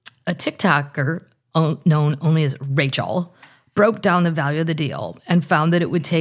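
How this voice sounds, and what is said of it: Usual voice. Nothing is said of it.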